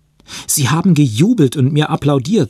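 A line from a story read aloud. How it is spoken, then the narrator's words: Excited. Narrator (German): sagte er aufgeregt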